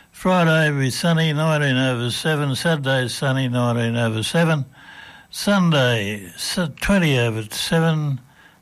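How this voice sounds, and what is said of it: Sick, flu-affected voice. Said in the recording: “Have to excuse my voice. I'm still getting over this flu that's been around everywhere.”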